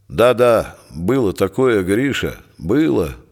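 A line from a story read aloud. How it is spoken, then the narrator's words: Quiet addition. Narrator (Russian): негромко добавил Михалкин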